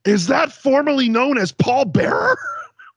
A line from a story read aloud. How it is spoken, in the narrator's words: Don West, goddamn Don fucking West, screams